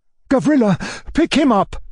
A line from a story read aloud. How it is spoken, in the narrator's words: cried, as pale as a corpse